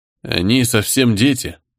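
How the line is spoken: Thoughtful. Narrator (Russian): задумчиво произнес Артем

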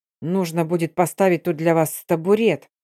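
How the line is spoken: Man grumbling. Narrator (Russian): проворчал мужчина

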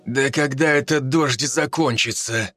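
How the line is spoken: Grumbling. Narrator (Russian): ворчал дозорный

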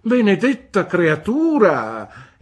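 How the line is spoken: Exclaimed. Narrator (Italian): esclamò Miss Betsy

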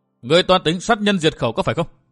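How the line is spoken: Loud shout. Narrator (Vietnamese): miệng quát lớn

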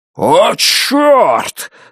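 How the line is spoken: Roaring. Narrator (Russian): взревел Дон Хэмфилл

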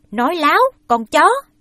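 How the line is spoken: Angry scolding bark. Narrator (Vietnamese): Ông cò đưa tay muốn đánh Ba Trâm, song ông không đánh, lại nạt rằng

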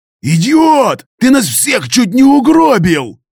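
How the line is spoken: Yelling angrily. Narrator (Russian): заорал гусеница

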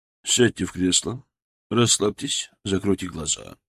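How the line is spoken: Plain. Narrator (Russian): сказал Полуэктов

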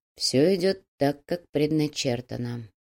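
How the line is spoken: Quiet, musing. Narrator (Russian): негромко, словно продолжая свои мысли, произнес Кирилл

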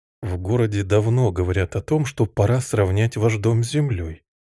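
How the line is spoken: Gentle. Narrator (Russian): мягко сказал отец

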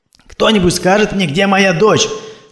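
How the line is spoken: Exhausted cry. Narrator (Russian): совсем обессиленная крикнула Ольга

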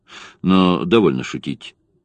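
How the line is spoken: Dry. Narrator (Russian): сухо сказал Дори

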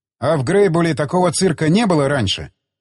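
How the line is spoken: Loud question. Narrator (Russian): спросил я у Джонни громко

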